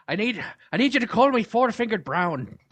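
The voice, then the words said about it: Bad put-on Irish accent. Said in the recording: “do your Irish voice ... Do my Irish voice ... terrible impression”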